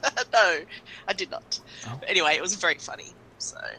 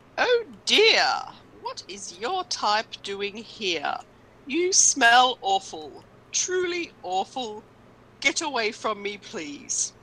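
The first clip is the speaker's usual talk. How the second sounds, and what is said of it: Silly put-on accent, NPC character. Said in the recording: “I'm going to do a silly accent.”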